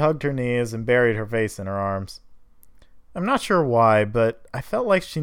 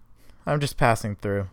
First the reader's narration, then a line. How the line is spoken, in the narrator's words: said flatly